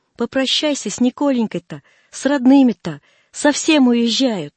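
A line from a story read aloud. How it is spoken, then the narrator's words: Shouting. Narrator (Russian): Арина кричала ему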